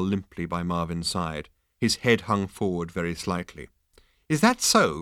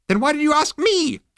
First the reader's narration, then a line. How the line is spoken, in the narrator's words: It screamed